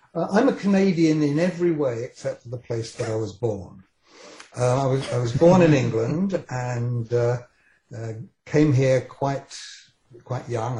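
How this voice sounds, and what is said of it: British accent. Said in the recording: “The only two things that I have that are still British is my accent, which I'm kind of stuck with”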